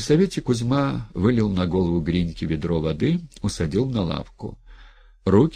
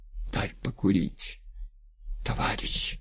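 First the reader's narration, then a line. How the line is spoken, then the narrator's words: Hoarse quiet male request. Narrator (Russian): осипшим голосом тихо попросил он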